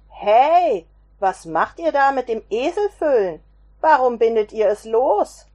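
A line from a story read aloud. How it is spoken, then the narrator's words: Called out, man. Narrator (German): rief einer der Männer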